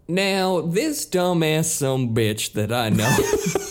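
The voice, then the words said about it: Put-on Southern accent. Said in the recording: “if you do it in a Southern accent, it'll work.”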